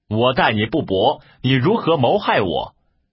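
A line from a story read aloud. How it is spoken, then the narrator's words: Angry scolding. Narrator (Chinese): 李榷……骂曰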